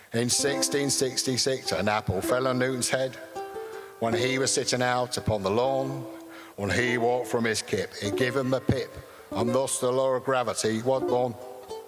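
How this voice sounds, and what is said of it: Brian Cox impression, Lancashire accent. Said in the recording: “this is Brian Cox. So if I can affect a Lancashire accent.”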